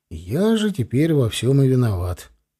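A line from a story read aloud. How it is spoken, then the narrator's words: Stunned mutter. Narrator (Russian): пробормотал ошарашенно я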